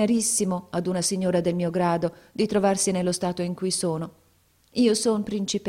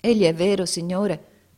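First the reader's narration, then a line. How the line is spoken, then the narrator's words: Very sad tone. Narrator (Italian): rispose la principessa Jawhare con tono assai tristo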